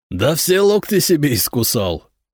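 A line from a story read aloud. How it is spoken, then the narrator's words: Loud laughter. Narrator (Russian): расхохотался Надир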